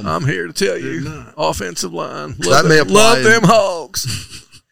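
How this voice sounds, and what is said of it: Bill Clinton impression. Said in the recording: “did you rediscover how to do accents? ... Voices? Impressions? ... It's not an accent. ... Billy Clinton is a lifestyle.”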